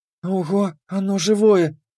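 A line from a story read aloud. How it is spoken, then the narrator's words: Delighted whisper. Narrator (Russian): прошептала она с восторгом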